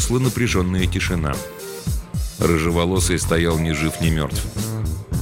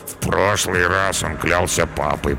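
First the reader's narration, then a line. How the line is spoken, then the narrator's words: Sleepy mutter. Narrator (Russian): пробормотал Карабас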